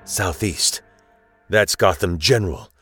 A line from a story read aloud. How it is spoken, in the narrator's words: The Rain Man of Kabooms mutters to no one